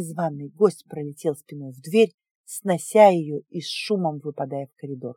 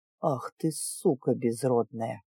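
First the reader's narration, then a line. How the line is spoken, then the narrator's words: Hissed. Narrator (Russian): прошипел он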